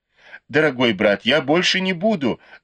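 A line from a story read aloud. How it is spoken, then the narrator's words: Pleading. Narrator (Russian): взмолилась Дай Юй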